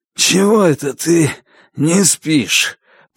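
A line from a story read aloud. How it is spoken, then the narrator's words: Hoarse. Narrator (Russian): прохрипел Стюарт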